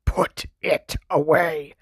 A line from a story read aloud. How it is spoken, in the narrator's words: Uncle Vernon snarled into Harry's ear